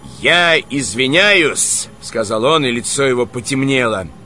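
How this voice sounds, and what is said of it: Usual voice. Nothing is said of it.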